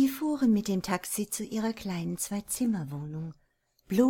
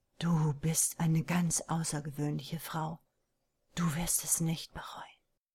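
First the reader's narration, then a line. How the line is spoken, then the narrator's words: Quiet. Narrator (German): sagte er leise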